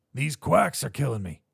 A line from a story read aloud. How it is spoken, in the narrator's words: croaked Richie